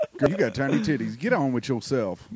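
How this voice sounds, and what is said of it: Imitates another person's voice. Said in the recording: “my impression of Tommy Mac ... That is a good impression ... Sounds a little bit like you're Ben Affleck. Just a tiny bit.”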